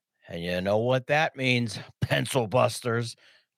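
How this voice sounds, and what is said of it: Imitates another person's voice. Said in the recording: “Trying to do my Johnny impression there.”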